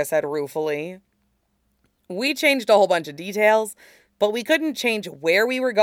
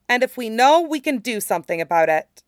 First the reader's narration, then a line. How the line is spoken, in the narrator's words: Aang said firmly